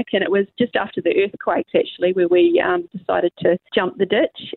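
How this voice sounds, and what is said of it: Slight New Zealand accent. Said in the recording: “a little bit of a Kiwi accent”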